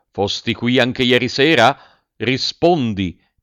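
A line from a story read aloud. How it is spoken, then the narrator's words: Commanding tone. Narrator (Italian): disse il cuoco in tono di comando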